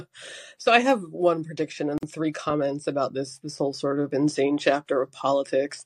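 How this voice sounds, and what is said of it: Rough, congested voice. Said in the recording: “apologize for my voice first. I have a cold, so not exactly voice beautiful tonight.”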